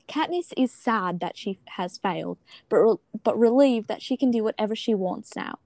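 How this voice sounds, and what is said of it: Put-on British accent. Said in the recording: “I'm gonna read the chapter 6 summary in a British accent”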